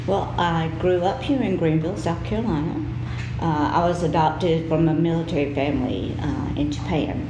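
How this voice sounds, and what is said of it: Deep Southern American accent. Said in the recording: “I grew up with a southern accent. ... It's very deep”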